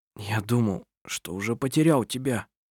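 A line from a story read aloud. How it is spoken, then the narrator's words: Hoarse. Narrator (Russian): сказал он хрипло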